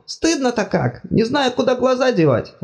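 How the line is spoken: Exclamation. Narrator (Russian): воскликнул Бог

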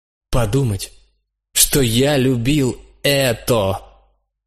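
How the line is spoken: Said loudly. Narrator (Russian): сказал я громко

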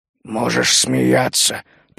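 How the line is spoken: Grumbled. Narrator (Russian): пробурчал он

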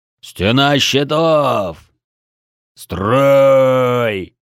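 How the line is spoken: Beastlike roar. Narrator (Russian): проревел звероподобный Бедвар

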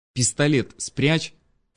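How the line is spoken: Urgent hiss. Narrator (Russian): прошипела Вера

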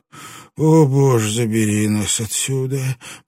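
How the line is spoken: Moaning. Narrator (Russian): простонал кто-то

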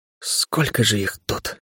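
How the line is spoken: Whisper under breath. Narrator (Russian): прошептал я себе под нос

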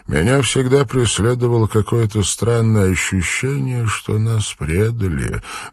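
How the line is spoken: Sad. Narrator (Russian): грустно произнес доктор

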